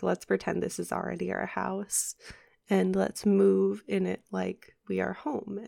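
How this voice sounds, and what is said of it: Rough, dry-sounding voice. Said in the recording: “sorry about my voice. ... My throat has been acting a little weird ... I've been getting a little dry”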